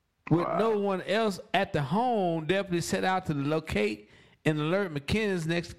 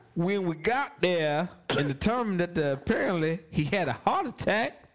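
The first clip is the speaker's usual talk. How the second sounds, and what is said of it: Poor put-on South Carolina accent. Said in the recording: “I don't have a very good South Carolina accent. I'm just going to assume it sounds racist.”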